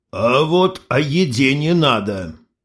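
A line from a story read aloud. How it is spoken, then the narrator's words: Stern. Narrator (Russian): строго сказал Кирилыч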